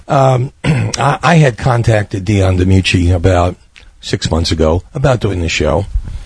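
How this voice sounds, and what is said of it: Slightly sick-sounding voice. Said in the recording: “excuse my voice, I'm a little under the weather, not too bad.”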